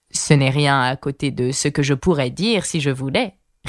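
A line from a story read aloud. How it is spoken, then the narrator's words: Satisfied retort. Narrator (French): répliqua la duchesse d'un ton satisfait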